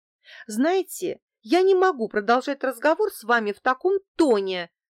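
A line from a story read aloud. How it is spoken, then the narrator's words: Offended. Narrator (Russian): обиженно сказала я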